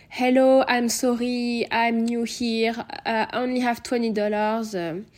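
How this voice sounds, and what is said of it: Thick French accent in English. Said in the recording (French): “je, sors mon, plus gros accent français”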